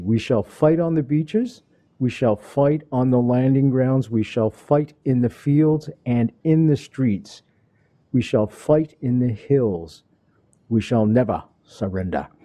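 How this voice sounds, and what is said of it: English accent Churchill impression. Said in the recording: “That's my best English accent and Churchill impression. ... Not bad. ... Not great.”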